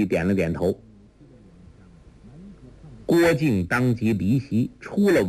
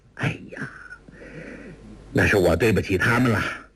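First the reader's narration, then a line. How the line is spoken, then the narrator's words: Sighing. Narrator (Chinese): 完颜康叹道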